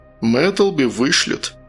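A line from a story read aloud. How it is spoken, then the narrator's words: Heavy sigh. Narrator (Russian): Матик тяжело вздохнул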